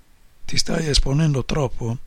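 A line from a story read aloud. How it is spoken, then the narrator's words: Calm whisper. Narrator (Italian): ha sussurrato con la sua voce paccata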